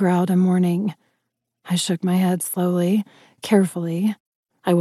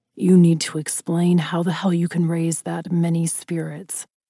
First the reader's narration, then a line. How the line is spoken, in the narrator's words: Ryder growled